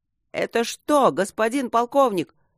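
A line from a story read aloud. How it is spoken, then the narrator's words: Joyful yelling, sniffling. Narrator (Russian): радостно орал ему в ухо лейтенант, шмыгал носом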